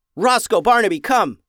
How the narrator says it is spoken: yelled Ben

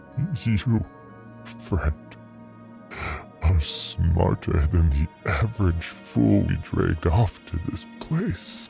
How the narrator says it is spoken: he croaked

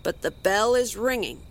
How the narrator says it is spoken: he said gruffly

